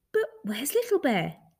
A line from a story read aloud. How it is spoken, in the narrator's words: They asked, anxiously